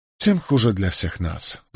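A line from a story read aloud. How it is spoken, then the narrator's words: Sighing. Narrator (Russian): вздохнул Николас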